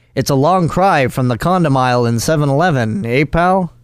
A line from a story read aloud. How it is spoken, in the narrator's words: Chuckles growled